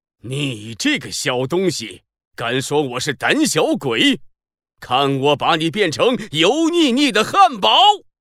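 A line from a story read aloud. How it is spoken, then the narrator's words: Furious roar. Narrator (Chinese): 被说成胆小鬼的垃圾食品大魔王气得咆哮了起来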